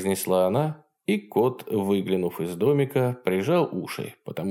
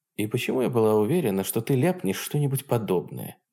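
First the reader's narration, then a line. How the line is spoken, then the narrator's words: Mutter. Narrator (Russian): пробормотала Хенки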